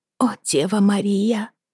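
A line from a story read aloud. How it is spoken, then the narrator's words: Repeated whispering. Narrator (Russian): шептала Лизи снова и снова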